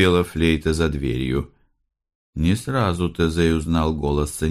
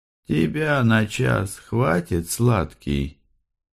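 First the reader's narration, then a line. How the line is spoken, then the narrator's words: Deep, husky female voice. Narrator (Russian): Второй голос был женский, грудной, с хрипотцой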